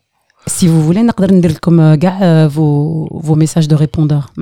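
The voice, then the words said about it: Sensual, seductive voice. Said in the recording (French): “Avec une voix sensuelle.”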